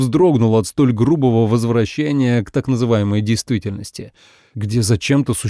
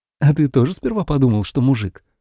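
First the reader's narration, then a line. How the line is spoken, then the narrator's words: Whisper, woman. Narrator (Russian): прошептала Марьяна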